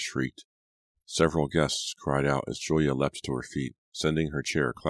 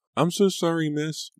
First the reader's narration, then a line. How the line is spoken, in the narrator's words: Lucy cried, struggling to hold on to the big soup tureen